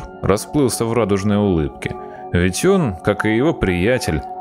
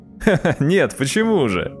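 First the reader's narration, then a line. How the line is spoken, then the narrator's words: Hearty laughter. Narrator (Russian): Егор от души расхохотался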